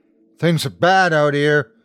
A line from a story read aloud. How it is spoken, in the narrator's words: Jordy shouted